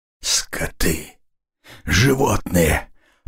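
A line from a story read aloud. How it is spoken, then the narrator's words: Hoarse rasp. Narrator (Russian): прохрипел Радзил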